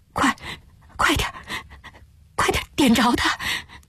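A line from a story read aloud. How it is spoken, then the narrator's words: Trembling, hurried murmuring. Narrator (Chinese): 林偶初的声音也抖，嘈嘈切切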